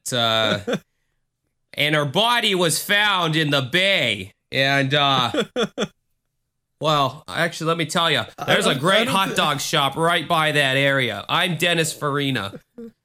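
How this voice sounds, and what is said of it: Chicago accent impression. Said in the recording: “that Chicago accent”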